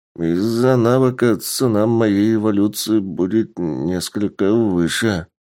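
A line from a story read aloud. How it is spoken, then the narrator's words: Uncertain. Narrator (Russian): неуверенно добавил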